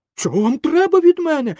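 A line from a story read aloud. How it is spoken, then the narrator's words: Frightened shout. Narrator (Ukrainian): закричав перелякано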